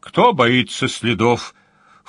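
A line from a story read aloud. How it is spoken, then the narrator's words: Scornful snort. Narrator (Russian): фыркнул Джин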